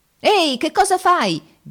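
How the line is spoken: Shouting. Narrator (Italian): gridate

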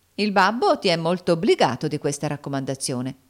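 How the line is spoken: Laughing. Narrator (Italian): disse Sinclair ridendo

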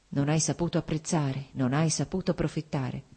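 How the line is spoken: Strange crazed murmur. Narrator (Italian): ripetere con uno strano, pazzo mormorio

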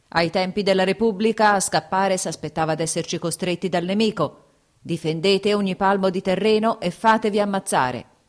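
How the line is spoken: Shouted command with curse. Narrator (Italian): gridò, accompagnando con una bestemmia l'imperativo

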